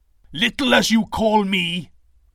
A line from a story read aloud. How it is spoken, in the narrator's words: Thor bellowed